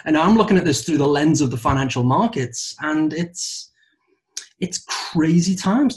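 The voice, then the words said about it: Speaks with an unusual accent. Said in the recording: “It's my weird accent.”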